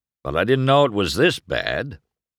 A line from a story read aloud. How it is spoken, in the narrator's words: Doc rumbled